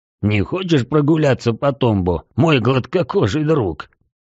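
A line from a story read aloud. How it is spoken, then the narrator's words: Hoarse laugh. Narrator (Russian): хрипло рассмеялся Рокки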